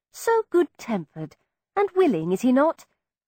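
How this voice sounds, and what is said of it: Aristocratic accent. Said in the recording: “speak naturally in my own aristocratic accent.”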